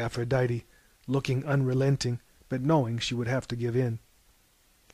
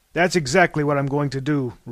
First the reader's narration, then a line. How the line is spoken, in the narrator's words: roared Zeus